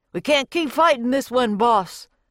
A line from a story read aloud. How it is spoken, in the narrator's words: a cowboy yelled